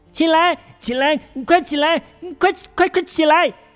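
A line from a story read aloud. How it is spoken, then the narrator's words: Repeated calls from nowhere. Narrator (Chinese): 虚空中传来一声声呼喊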